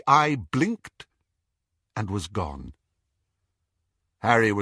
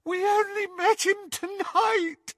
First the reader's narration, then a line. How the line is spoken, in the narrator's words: Hermione sobbed